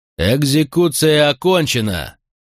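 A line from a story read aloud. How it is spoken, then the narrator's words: Roar. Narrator (Russian): проревел Макрон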